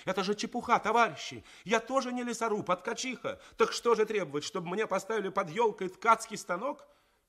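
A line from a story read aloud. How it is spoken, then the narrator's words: Ringing shout. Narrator (Russian): Тоня Васяева закричала звенящим голосом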